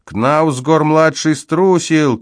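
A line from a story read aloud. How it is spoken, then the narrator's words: Shouting. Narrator (Russian): кричали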